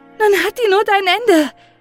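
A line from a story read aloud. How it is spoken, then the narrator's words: Calling out. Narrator (German): rief Maren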